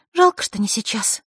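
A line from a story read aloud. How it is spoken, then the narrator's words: Sighed. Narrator (Russian): вздохнула Василиса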